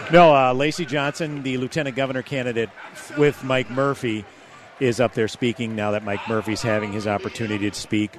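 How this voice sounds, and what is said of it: Hushed, soft radio voice. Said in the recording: “I'm kind of talking with my NPR voice because people are listening raptly to these speeches”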